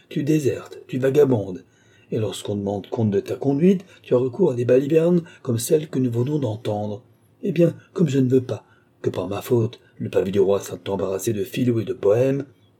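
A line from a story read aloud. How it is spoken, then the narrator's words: Exclaimed. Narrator (French): s'écria-t-il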